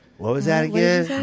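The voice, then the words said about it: Impression of a friend. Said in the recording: “I'm going to do my impersonation of Bonna.”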